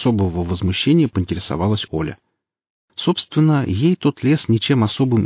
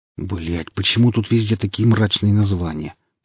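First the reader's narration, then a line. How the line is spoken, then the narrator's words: Soldier's grumble. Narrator (Russian): проворчал солдат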